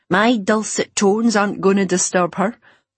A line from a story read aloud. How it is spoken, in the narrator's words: she chuckled